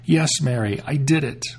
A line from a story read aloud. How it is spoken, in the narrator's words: Suddenly her voice came back, and she cried aloud